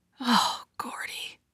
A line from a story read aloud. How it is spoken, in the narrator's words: Midge whispers